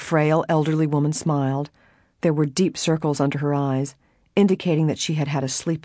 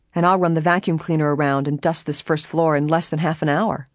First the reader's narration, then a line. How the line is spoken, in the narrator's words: Helen said merrily